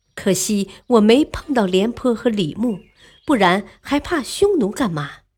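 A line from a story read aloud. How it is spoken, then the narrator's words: Sudden excited sigh. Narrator (Chinese): 文帝忽然激动起来，叹道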